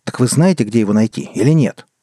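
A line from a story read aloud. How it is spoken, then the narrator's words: Impatient sharp shout. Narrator (Russian): Не выдержав, прикрикнул на Цербера Артур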